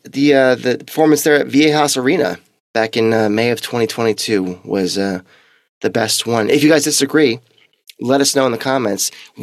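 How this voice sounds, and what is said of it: Strained voice, close to giving out. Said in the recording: “we are battling here. My voice is about to go.”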